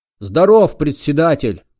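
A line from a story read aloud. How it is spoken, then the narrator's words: Barked loudly. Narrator (Russian): гаркнул новоприбывший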